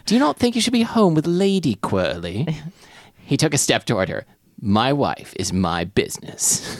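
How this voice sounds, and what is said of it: Put-on accent for reading. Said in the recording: “It's easier to do this accent if you tilt your head.”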